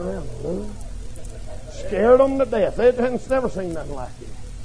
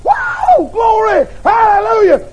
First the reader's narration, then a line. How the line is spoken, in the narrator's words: She started to holler and shout